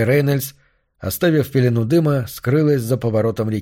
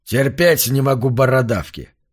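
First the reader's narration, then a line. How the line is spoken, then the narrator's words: Cold reply. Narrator (Russian): холодно ответил Типтон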